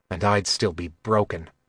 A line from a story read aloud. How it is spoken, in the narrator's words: Kylar said bitterly